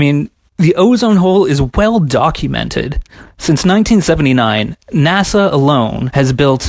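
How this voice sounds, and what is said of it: Usual voice. Nothing is said of it.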